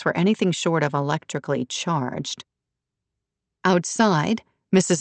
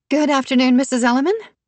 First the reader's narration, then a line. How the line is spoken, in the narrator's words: Yvonne said brightly